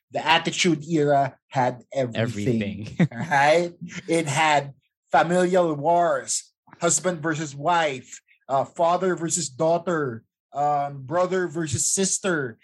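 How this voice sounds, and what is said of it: Imitates a comedy sketch character. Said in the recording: “best Stefan from SNL impression”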